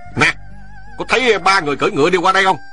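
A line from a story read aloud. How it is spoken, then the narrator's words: Loud barked question. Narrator (Vietnamese): Hắn lớn tiếng quát hỏi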